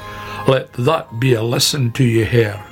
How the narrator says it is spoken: said Badger

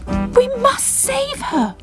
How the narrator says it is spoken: cried Bubble

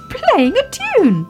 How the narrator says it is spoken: cried Baby Ted

